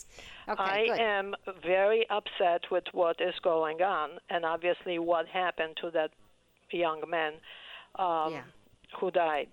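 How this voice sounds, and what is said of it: Polish accent. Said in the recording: “you probably understand from my accent that I'm white. I'm immigrant to this country ... Polish, Eastern European? ... Polish. Yes, you are hearing Polish.”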